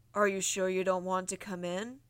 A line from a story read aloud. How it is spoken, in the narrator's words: asked a familiar booming voice